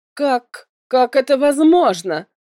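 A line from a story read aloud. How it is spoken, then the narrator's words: Shouting. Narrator (Russian): закричала Моргана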